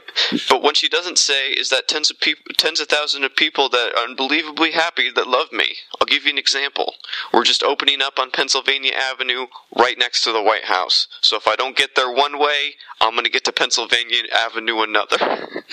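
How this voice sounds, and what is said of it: Smarmy imitation of another person's voice. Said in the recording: “Can you do his voice? I've been trying to do his voice. ... I'm trying. It's hard. ... You got to get the smarminess.”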